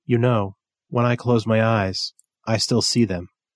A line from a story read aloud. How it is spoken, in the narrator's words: Meg said softly